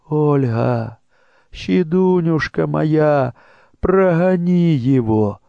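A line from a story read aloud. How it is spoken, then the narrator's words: Mother's pleading whisper. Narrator (Russian): шепчет мать умоляющим голосом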